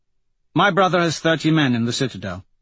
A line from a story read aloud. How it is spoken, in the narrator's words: Mustang says